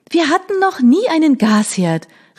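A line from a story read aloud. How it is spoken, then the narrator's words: Calling out. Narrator (German): rief ich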